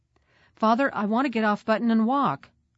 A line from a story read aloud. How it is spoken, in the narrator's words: I called out